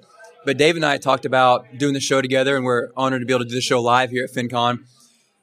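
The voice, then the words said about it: Slightly hoarse voice. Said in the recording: “my voice is a little hoarse this morning. This is day three of the conference”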